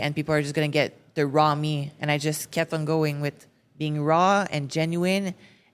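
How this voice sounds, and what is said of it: French accent in English. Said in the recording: “my French accent was so bad. It's still a little bit bad. I can hear it right now”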